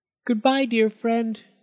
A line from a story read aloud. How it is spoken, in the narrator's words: squeaked Amos